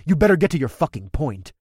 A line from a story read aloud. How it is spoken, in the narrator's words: snapped